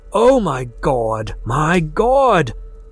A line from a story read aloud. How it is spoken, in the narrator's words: the voice choked out